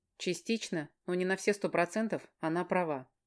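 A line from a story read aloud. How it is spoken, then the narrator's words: Plain. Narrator (Russian): говорит Илья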